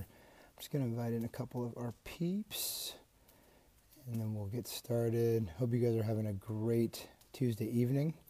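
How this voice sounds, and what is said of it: Hoarse, laryngitis-affected voice. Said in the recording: “Apologize for the voice. I um, have been fighting. Uh, little laryngitis from a cold that I got.”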